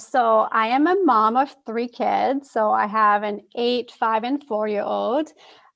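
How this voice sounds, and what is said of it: French accent. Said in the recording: “my French accent, it's because my first language is French”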